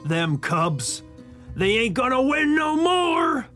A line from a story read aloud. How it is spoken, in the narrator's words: he shouted